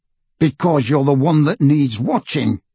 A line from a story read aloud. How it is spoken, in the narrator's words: growled Moody